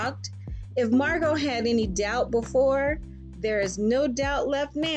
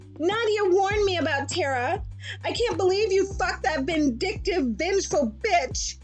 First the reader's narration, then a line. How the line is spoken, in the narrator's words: Margo yelled as she stormed off